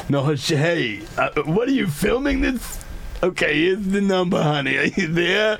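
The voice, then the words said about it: Elderly grandma voice. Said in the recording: “doing my own grandma voice.”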